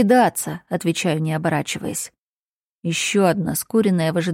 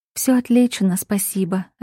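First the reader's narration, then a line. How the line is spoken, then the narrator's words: Calm reply. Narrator (Russian): отвечает спокойно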